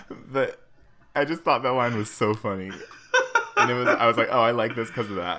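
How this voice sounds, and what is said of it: Usual voice. Nothing is said of it.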